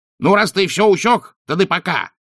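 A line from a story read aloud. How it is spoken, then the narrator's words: Snapping retort. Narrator (Russian): огрызнулся уродец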